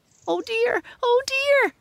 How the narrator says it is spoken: squealed Squinty

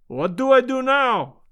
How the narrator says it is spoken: cried

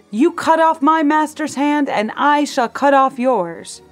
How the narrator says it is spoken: He shouted

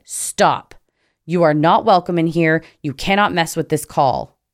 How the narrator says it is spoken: loudly said

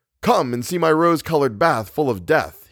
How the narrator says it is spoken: he cried

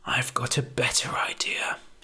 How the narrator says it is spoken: he murmured

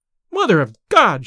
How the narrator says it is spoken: she cried

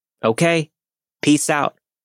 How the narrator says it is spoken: feeling brave, I snapped back

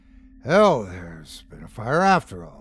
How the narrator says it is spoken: muttered Jonas, with an uneasy start

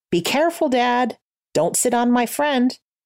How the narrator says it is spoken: his son called out

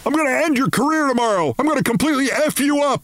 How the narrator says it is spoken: He began screaming again

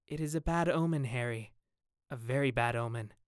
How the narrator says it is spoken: said, with a very heavy sigh

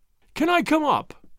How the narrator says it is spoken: he cried

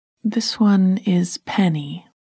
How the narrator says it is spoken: I said

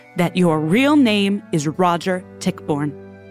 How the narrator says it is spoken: Gibbs said, his voice triumphant

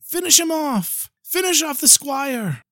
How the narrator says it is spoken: some were shouting

